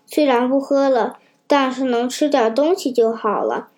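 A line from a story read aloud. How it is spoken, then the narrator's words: Low muttering. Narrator (Chinese): 夫人低声嘀咕道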